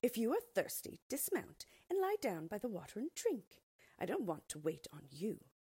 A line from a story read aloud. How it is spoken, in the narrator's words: the maid replied curtly